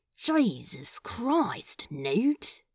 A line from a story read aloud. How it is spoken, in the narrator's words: Crowley muttered